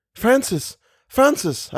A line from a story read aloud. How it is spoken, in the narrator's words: I cried